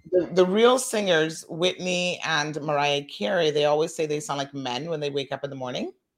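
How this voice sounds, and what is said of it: Croaky, hoarse voice. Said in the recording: “A little croaky still. ... You sound a little croaky. ... what happened to your voice? ... They have that croaky voice.”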